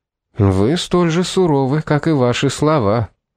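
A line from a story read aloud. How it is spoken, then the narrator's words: Caustic tone. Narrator (Russian): едким тоном проговорил суперинтендант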